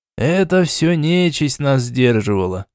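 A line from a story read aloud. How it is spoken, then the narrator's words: Sighing again. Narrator (Russian): снова вздохнул Жмых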